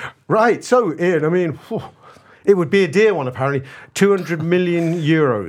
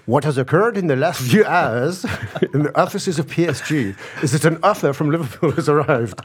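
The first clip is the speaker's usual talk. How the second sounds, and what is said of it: Put-on French accent, Peter Sellers-style. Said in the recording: “I'm going to assume he's French, so I'm going to do a French accent here. ... I'm channeling Peter Sellers for the kids there.”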